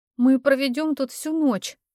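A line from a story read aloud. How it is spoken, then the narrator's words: Moaning. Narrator (Russian): простонала я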